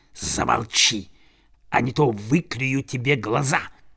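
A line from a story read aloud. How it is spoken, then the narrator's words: Hissing big crow. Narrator (Russian): самый большой из окруживших его ворон прошипел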